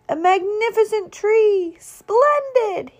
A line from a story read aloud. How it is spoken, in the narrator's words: he cried